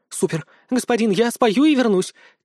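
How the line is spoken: Overjoyed babbling. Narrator (Russian): Теряя голову от счастья, пролепетала дракошка

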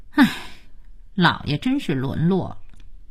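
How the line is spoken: Sighing. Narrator (Chinese): 佳期却叹气说

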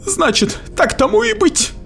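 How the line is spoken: Relieved sigh. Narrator (Russian): сказала она и облегченно выдохнула

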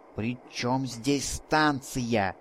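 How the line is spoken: Hissing. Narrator (Russian): прошипел мой спутник

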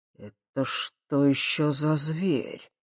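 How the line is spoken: Astonished exhale. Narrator (Russian): изумленно выдохнул Михалыч

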